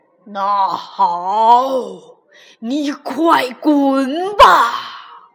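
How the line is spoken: Mountain monster roaring. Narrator (Chinese): 山怪吼道

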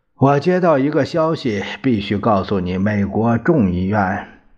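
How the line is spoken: Sighing. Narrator (Chinese): 司徒叹了一口气

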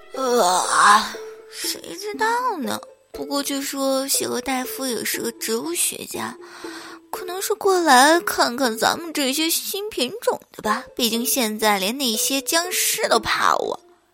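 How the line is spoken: Muttering. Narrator (Chinese): 魔术菇……嘀嘀咕咕的说着

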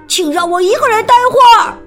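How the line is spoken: Shouting. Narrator (Chinese): 阿蒙大喊

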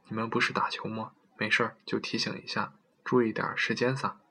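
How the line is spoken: Cautious low voice. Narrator (Chinese): 用略带谨慎的口气低声说

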